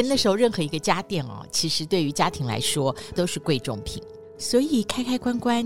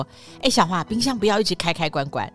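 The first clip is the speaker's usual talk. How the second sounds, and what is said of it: Imitating her mother's voice. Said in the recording (Chinese): “我现在还会想起我妈妈的声音说”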